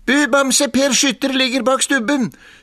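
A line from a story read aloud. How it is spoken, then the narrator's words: Shouting into ear. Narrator (Norwegian): skrek han like inn i øret på bjørnen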